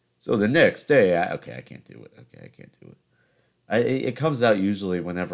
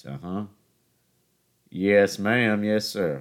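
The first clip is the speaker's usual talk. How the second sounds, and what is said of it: Put-on Southern US accent. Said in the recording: “the Southern Manoli podcast ... the accent starts to creep out just a little bit”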